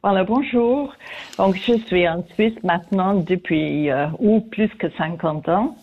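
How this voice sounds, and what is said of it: French spoken with a noticeable accent. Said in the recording (French): “comme vous pouvez entendre, j'ai toujours mon accent ... cet accent qu'on entend avec plaisir”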